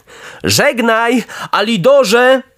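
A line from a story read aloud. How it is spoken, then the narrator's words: Shout. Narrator (Polish): krzyknął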